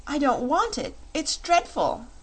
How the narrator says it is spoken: she exclaimed

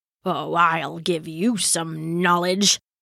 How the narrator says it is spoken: muttered Rashid

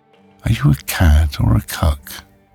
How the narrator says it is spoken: Elliot chuckles quietly

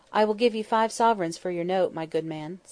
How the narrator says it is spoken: said Miss Matty

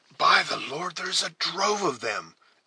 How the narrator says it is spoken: exclaimed the scout, whose eyes began to glisten with the ardor

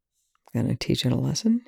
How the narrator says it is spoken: Young murmurs

